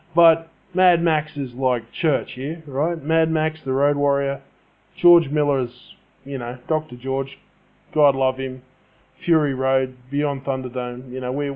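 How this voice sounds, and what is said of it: Australian accent. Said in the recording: “I'm Australian, just in case you can't tell by my accent.”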